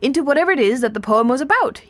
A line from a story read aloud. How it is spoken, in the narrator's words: he yelled